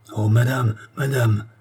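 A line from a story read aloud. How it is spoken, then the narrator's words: Ecstatic exclamation. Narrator (French): s'écria Barnabe, transporté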